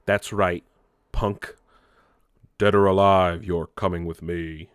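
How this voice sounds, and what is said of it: Poor imitation of a robotic movie cop. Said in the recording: “my terrible RoboCop impression”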